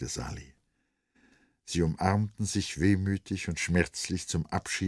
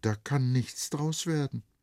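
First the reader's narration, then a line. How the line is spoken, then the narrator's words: Sad. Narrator (German): setzte es traurig hinzu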